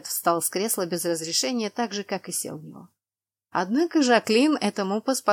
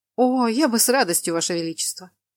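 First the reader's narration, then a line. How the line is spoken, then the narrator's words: Wry snort. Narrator (Russian): хмыкнул Калет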